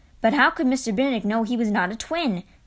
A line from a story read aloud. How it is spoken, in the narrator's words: Kate asked